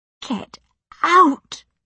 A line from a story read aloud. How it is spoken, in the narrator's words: gasped